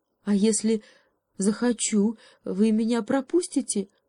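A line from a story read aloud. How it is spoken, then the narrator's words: Timid question. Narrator (Russian): робко спросил заяц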